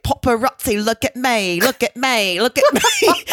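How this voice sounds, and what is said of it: Sung in an English accent. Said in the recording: “there was an English accent”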